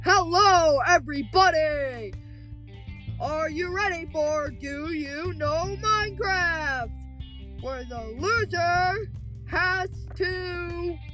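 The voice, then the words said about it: Game show host voice. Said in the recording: “put on my game show voice.”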